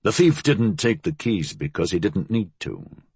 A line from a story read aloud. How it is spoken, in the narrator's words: he said calmly